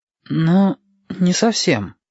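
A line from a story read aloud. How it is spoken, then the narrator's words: Said uncertainly. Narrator (Russian): неуверенно сказал Юкки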